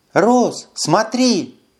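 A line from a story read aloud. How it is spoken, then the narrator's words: Exclaiming. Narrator (Russian): воскликнула Карара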